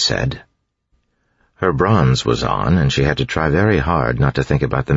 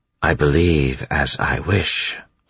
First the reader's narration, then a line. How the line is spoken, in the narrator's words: Orsier said